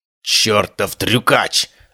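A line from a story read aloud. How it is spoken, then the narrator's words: Killer's growl. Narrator (Russian): рычал убийца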